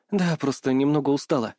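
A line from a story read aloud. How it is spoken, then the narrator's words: Lying with a weak smile. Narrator (Russian): соврала Ария, выдавив слабую улыбку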